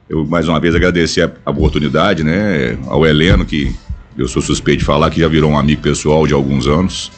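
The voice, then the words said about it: Deep announcer-like voice. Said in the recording (Portuguese): “com voz de locutor pra me humilhar ... meu pai era trovão”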